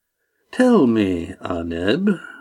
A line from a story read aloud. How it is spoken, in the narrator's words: Mufrid continued smoothly